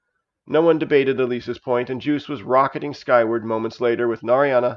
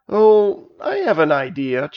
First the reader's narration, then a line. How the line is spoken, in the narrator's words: chuckled Juice